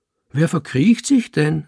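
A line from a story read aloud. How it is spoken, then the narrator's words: Call back. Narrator (German): rief ich zurück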